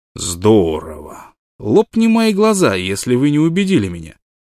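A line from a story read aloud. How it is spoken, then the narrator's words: Joking, audibly disappointed. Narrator (Russian): Карсон говорил шутливым тоном, но разочарование явно слышалось в его голосе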